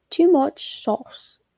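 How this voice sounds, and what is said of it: Put-on British accent. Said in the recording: “I'll say that in a British accent.”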